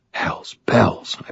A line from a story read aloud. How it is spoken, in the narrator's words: I breathed